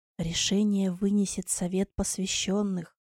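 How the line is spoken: Barely audible, defeated. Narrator (Russian): еле слышно, словно расписываясь в собственном бессилии, произнес

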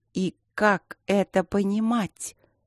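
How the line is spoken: Slowly growing furious. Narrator (Russian): медленно зверела недосупруга

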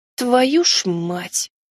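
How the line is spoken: Muttered. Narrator (Russian): пробормотала я

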